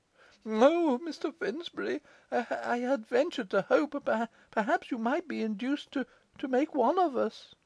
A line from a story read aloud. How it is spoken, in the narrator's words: faltered Pitman